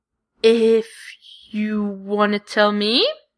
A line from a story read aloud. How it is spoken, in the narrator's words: adds slowly